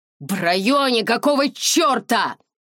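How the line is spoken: Yell. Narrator (Russian): заорал

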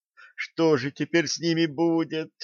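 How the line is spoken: Whining. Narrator (Russian): заскулила Лепескова

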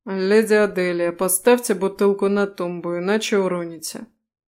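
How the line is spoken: Indifferent, coarser, haughty. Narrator (Russian): проговорил сэр своим равнодушным голосом, который теперь стал несколько грубее и будто бы надменнее

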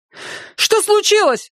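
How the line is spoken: Shouting. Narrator (Russian): закричал

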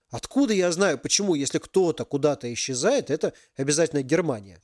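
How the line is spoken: Angry reply. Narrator (Russian): злобно ответил Ярик

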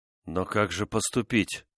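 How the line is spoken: Dejected. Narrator (Russian): уныло проговорил Декатина

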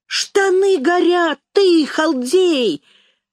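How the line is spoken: Shouting. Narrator (Russian): закричал Жмырев

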